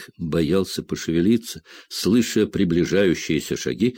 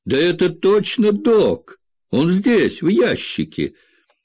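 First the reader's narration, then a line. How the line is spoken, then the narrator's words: Shout. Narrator (Russian): негр, обернувшись к приятелям, крикнул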